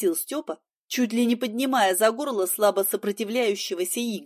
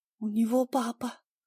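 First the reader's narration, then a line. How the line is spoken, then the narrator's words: Quiet whisper. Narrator (Russian): шепнула я тихо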